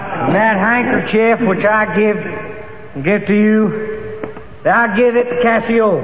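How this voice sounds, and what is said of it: Broad Texas accent. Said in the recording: “Othello was a fine, powerful fellow with a broad Texas accent.”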